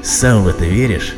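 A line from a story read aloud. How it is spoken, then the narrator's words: Young man's scoffing snort. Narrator (Russian): хмыкнул молодой человек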